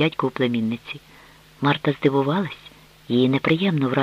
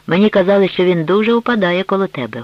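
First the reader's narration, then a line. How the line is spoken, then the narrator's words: Loud, older man. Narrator (Ukrainian): голосно провадив дядько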